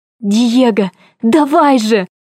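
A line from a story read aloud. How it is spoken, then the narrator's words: Hissing under breath. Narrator (Russian): Зашипела я себе под нос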